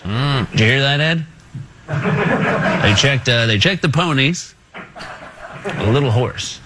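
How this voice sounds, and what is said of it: Johnny Carson impression. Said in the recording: “He was doing a Johnny Carson impersonation”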